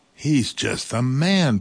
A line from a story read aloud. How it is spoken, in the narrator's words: Papa cried